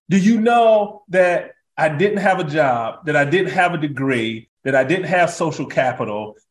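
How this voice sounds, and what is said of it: Thick Southern US accent. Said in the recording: “a Black man from down south with a thick accent, Southern accent”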